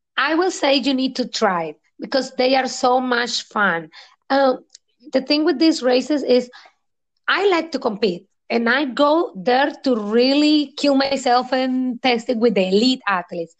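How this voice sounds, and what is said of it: Speaks with a beautiful accent. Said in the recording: “has a beautiful accent”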